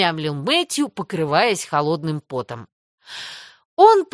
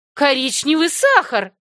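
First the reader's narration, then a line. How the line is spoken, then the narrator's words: Exclaiming. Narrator (Russian): воскликнула та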